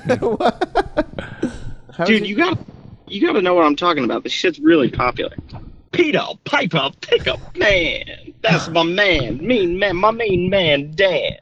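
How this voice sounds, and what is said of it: Strange cartoonish jazz-musician voice. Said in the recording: “you sound like an insane person ... You sound like what a cartoon would make to tell kids to stay away from ... You sound like a jazz musician from the 40s, like high on heroin”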